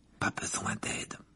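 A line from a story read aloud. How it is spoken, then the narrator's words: Murmured. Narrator (French): murmura Ron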